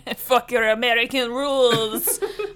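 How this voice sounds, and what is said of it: Put-on French accent. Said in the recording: “My perfect French accent.”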